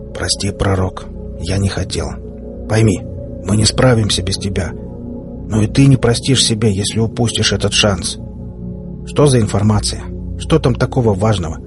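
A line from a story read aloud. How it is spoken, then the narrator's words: General's muffled voice. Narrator (Russian): генерал, глухо произнеся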